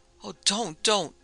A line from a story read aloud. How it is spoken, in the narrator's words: Sheila cried out